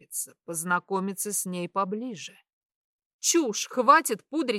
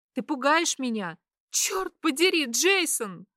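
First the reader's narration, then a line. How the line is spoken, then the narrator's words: Sobbing. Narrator (Russian): Она всхлипывает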